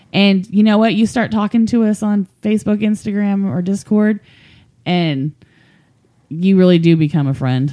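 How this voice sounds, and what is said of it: Rural country accent. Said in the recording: “Don't let the accent fool you. We're some friendly country bumpkins.”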